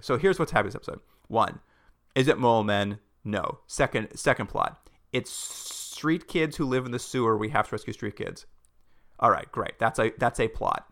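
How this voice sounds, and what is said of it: Very fast speech. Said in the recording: “I'm going to say this really quickly.”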